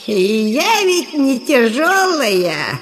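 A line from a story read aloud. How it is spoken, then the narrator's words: Giggling old woman. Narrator (Russian): сказала старуха, хихикая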